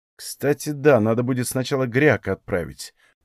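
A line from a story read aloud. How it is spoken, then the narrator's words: Thoughtful. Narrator (Russian): произнес я задумчиво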